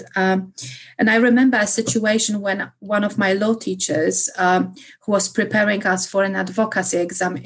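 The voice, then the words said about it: Polish accent in English. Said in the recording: “as for being Polish ... my accent ... because of my accent ... you speak with an accent”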